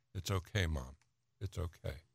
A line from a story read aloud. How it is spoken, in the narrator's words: Annie, at 19, saying softly